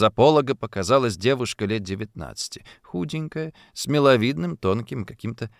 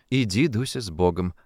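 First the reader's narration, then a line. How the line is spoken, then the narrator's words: Affectionate, sympathetic. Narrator (Russian): ласково, с оттенком соболезнования, отвечала ей Ефросинья Авксентьевна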